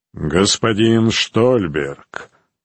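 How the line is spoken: Deep bass voice. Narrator (Russian): проговорил он глубоким басом

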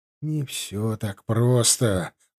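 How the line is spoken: Sighing. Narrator (Russian): вздохнул Фанрик

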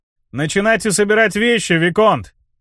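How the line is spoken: Cheerful shout after someone. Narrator (Russian): весело крикнул я ему вдогонку

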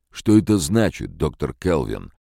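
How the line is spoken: Angry question. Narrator (Russian): сердито спросил Леннинг

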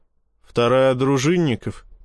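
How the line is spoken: Grunting hmph. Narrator (Russian): хмыкнул я

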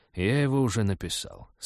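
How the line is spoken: Calm reply. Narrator (Russian): спокойно ответил Ашсей

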